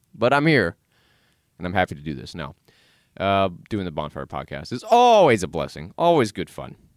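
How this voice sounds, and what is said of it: Tired voice, cracking. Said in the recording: “my voice is cracking because I'm so tired”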